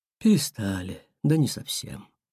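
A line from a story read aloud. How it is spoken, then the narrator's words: Whale sighing. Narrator (Russian): вздохнул кит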